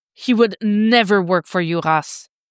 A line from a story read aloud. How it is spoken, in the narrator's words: Dick snarls